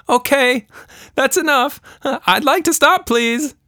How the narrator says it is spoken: shouted

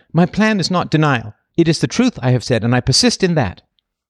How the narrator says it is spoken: She fiercely, yet with dignity, retorted

